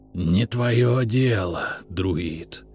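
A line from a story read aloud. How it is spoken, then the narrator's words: Serpent's hiss. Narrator (Russian): прошипел змей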